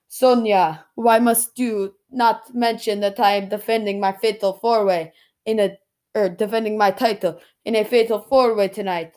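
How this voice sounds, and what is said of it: Attempted Nigerian accent. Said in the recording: “I can't do a Nigerian accent, but I'm going to try ... Sorry about that Nigerian accent.”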